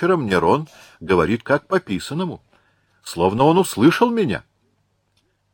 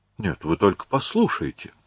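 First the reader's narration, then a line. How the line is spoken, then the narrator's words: Very quiet chuckling. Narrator (Russian): совсем тихо посмеивался русский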